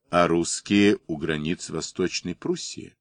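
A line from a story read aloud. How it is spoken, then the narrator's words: Quiet. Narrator (Russian): Обер-лейтенант тихо сказал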